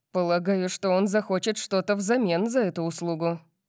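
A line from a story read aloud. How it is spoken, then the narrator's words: Gloomy. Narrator (Russian): мрачно сказал Диего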